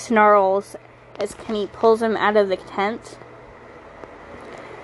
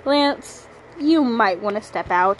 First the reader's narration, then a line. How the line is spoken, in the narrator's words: Hepsu growled